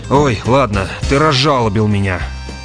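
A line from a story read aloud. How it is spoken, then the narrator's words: Weary. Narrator (Russian): устало промолвил Грегор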